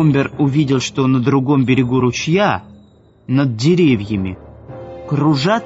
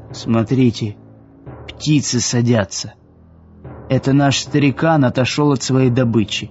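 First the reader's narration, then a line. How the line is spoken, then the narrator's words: Whisper. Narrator (Russian): Уилсон прошептал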